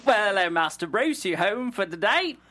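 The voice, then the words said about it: Put-on British butler accent. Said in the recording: “I can't do a British accent ... I'm terrible with accents ... That's better ... you sucked less than you told me you did”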